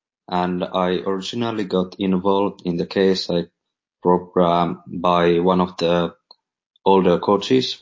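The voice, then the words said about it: Strong Scandinavian accent. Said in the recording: “strong accent, some Scandinavian involvement”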